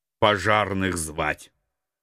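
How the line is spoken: Gruff grumble. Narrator (Russian): буркнул я

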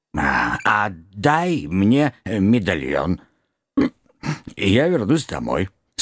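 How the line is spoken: Effortful hoarse rasp. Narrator (Russian): старательно прохрипел Щур

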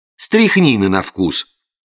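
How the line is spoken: Indignant. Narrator (Russian): возмущенно продолжил я

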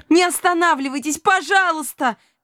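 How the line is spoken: Shouting. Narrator (Russian): кричала Илона

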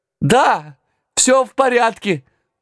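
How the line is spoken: Thin shout between sneezes. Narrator (Russian): тонко прокричал я, отчихиваясь от гари

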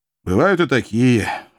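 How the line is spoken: Tired. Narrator (Russian): устало сморгнул бывший филолог

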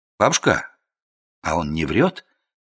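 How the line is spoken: Quiet question. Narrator (Russian): тихо спросил я

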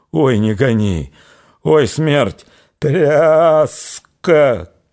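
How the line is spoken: Coarse-voiced shouting. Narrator (Russian): кричала Аксинья огрубевшим голосом

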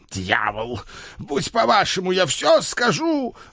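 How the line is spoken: Despairing howl, old man. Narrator (Russian): взвыл старый барон, в отчаянии

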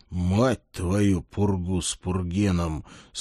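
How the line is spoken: Exhaled through gritted teeth. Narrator (Russian): сквозь зубы выдохнул я

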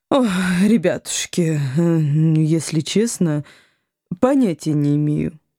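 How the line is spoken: Sympathetic sigh, woman. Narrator (Russian): сочувственно вздохнула женщина

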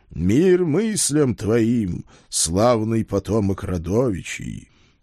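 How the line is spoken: Friendly booming over phone. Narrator (Russian): приветливо прогудело в трубке

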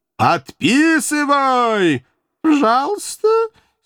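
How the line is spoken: Suppressing giggles. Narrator (Russian): С невероятным трудом удерживаясь от дурацкого хихиканья, Рахиль

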